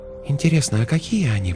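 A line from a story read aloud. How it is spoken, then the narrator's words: Whisper. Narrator (Russian): прошептала Светлана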